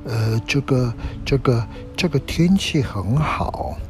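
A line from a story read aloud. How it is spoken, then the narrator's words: Quiet sighing voice. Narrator (Chinese): 有一个很小声的声音，突然叹了口气，在那边小声地说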